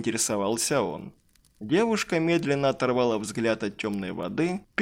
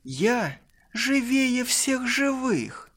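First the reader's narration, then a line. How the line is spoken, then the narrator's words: Eerily cheerful, smiling. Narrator (Russian): Пугающе радостно ответила она, легонько улыбаясь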